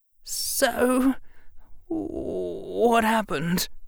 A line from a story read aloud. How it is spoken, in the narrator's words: Harry said, his voice trembling